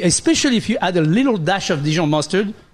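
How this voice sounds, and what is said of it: Fake French accent. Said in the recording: “the fake French accent from the French guy”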